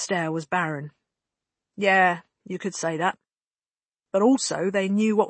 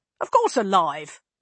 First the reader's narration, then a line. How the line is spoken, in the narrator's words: Lane snapped at him